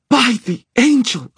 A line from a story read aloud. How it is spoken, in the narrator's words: Aline shouted